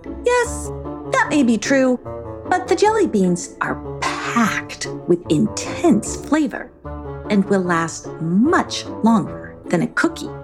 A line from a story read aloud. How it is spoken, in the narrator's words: said Negotiati